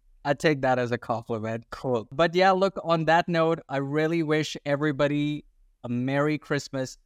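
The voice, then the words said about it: Unusual, hard-to-place accent. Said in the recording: “my accent ... I hear unique. Unique is the word I keep hearing.”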